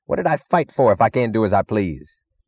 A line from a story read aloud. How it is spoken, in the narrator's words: He chuckled